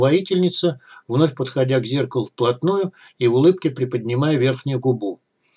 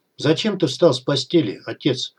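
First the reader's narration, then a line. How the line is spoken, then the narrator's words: Even-voiced question. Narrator (Russian): ровным голосом спросила девушка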